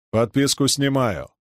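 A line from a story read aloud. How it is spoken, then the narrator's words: Plain. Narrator (Russian): ответил Чернышов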